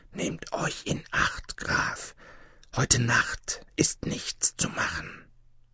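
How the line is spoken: Whispered in Franconian. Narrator (German): jemand flüsterte in fränkischer Sprache

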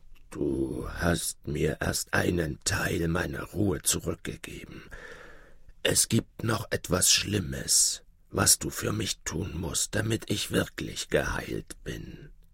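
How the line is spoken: Feigned weak, broken voice. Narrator (German): Der König aber sprach und verstellte dabei die Stimme, so daß sie sich schwach und gebrochen anhörte

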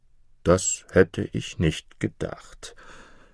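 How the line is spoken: Plain. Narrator (German): sagte der Oberküchenmeister

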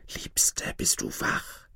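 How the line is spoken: Whispered. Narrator (German): eine Stimme flüsterte durch die Luke

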